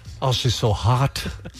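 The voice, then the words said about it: Mumbled British-accented character voice. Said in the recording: “What does the British guy think ... it sounded like your mouth was full of marbles”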